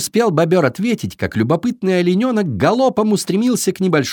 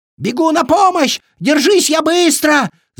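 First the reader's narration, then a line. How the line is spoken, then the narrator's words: Frightened beaver shouting. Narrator (Russian): закричал перепуганный бобер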